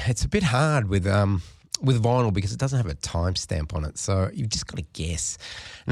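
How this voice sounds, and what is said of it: Stuffy, sick-sounding voice. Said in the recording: “I have a cold and I'm not really with it”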